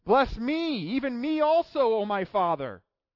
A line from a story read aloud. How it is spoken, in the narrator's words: he cried out with an exceedingly great and bitter cry and said